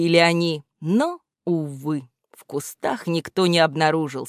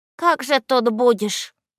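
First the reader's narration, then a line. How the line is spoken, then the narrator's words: Sighing. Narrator (Russian): вздохнул Малафей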